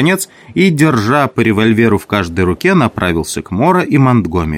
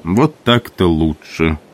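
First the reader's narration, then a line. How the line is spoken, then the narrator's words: Calm. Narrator (Russian): спокойно сказал Мора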